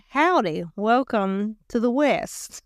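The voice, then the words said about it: Poor put-on West Texan accent. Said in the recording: “I don't know what that accent was ... he'd be mad at that accent. That was not a good West Texan accent.”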